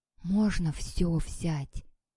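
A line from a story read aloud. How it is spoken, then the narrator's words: Whispered question. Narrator (Russian): шепотом спросил Андрюшка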